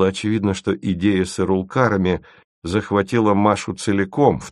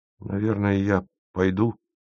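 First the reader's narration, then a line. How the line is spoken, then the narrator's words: Embarrassed mumble. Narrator (Russian): пробормотал он смущенно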